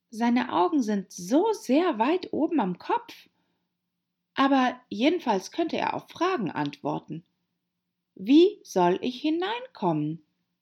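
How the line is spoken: Loud repetition. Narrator (German): wiederholte laut

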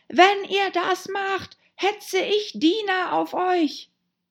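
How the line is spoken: Rabbit's voice. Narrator (German): sagte die Stimme des Kaninchens

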